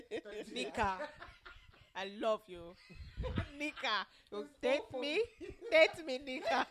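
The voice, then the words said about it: Bad put-on African accent. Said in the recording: “this bad accent as the only African in the room”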